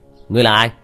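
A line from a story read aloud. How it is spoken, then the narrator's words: Shouting young man. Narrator (Vietnamese): Nam sinh cầm đầu hét lên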